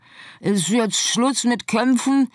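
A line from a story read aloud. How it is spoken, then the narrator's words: Calling upward. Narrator (German): rief sie zu Scarlett herauf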